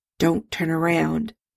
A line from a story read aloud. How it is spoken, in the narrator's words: Bones muttered, discreetly covering his mouth with a napkin